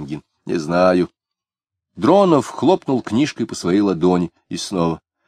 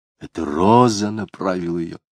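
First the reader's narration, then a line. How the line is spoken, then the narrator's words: Muttered. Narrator (Russian): бормотал Дронов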